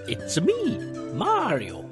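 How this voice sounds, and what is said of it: Poor imitation of Mario's voice. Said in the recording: “Sorry for the terrible impression, by the way, Charles Martinet. I tried.”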